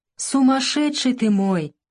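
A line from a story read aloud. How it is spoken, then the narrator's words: Smiling through tears. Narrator (Russian): Варя улыбнулась сквозь слезы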